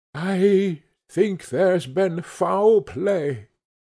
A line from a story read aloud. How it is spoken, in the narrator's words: said Poole hoarsely